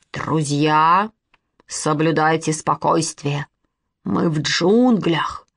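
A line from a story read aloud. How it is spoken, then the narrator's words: Frightening voice. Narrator (Russian): страшным голосом сказал Костя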